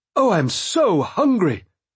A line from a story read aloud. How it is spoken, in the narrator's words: one exclaimed